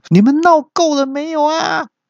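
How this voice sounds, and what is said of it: Sharp, shrill character voice. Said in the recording (Chinese): “一个尖锐的声音说”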